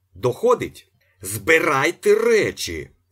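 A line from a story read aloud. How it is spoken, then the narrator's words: Supply manager shouting. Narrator (Ukrainian): закричав завгосп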